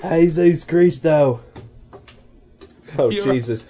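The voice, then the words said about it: Put-on British accent, drifting. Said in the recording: “Your accent is morphing, sir... I don't know into what... speak Spanish in a British accent”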